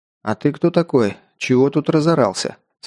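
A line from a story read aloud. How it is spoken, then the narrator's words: Calm question. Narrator (Russian): спросил спокойно я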